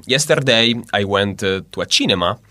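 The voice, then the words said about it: Exaggerated Italian accent in English. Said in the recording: “typical Italian accent when it comes to English ... Probably is with marked R. ... you can feel that it's quite marked.”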